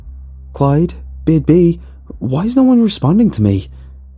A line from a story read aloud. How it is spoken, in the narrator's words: I yelled